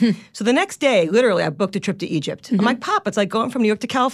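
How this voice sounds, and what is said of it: Usual voice. Nothing is said of it.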